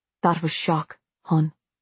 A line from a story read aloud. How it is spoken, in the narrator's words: Abby said gently